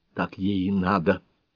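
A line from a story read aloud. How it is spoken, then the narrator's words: Angry whisper. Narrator (Russian): сердито зашептала Нонни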